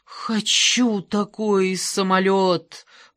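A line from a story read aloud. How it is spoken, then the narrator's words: Moaning. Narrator (Russian): простонал Ангела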